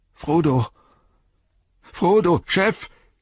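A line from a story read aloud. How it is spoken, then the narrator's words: Shouting, half sobbing. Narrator (German): schrie er halb schluchzend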